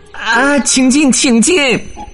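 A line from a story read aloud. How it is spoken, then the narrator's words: Hungry, hurried. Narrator (Chinese): 猫的肚子正饿得咕噜咕噜直叫呢，他急忙说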